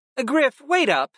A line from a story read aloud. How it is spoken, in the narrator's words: Kristen called out